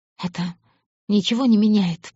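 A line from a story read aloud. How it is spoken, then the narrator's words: Moaning with pleasure. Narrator (Russian): простонала она, чувствуя, как нарастает внутри наслаждение и желая большего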